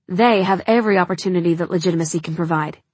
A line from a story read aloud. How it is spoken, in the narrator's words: snaps